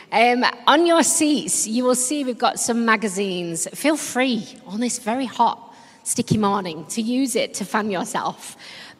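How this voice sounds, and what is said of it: Yorkshire English accent. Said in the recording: “the accent. Well, I don't apologise for my accent. I'm actually really proud to be from Yorkshire.”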